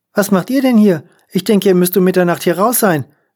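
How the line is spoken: Called across. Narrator (German): rief sie zu mir herüber

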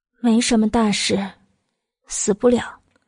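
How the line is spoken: Weak, sighing. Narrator (Chinese): 慕容九九悠悠一叹，颇有些有气无力的道

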